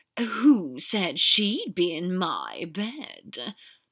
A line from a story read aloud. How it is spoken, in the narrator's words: Draco drawled